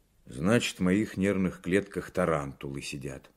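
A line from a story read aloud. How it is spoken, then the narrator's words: Angry pronouncement. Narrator (Russian): сердито изрек Сорокин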